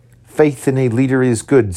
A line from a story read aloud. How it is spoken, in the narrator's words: said he